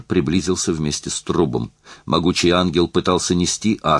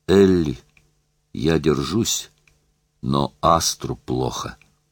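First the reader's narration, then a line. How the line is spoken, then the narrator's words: Hoarse breathless whisper. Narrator (Russian): Она хрипло дышала, она прошептала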